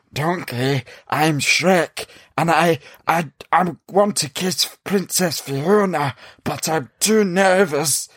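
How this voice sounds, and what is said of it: Raspy Gollum-like creature voice. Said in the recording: “Why does he sound like Gollum? ... that was a really good impression”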